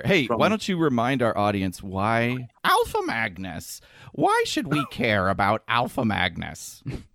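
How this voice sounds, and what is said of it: Imitates another person's voice. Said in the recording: “That was my Nardwar impression”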